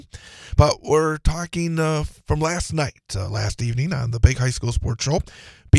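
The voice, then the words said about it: Hoarse voice from laryngitis. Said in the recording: “fighting a case of laryngitis”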